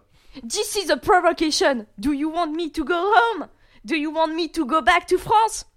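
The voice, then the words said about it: Imitation of Jacques Chirac. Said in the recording (French): “Ça vient de Jacques Chirac.”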